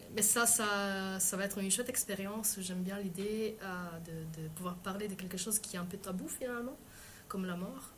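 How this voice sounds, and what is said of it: French with a foreign accent. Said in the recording (French): “j'ai un accent en français ... l'accent étranger”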